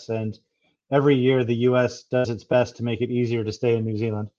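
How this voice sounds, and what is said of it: American accent. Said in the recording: “you can tell from my accent, I've come here from the US”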